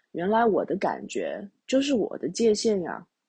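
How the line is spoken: Muttering to himself. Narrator (Chinese): 喃喃自语的说

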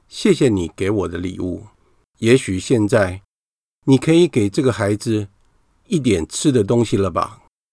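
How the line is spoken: Smiling, gentle. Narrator (Chinese): 这位大圣人微笑着说

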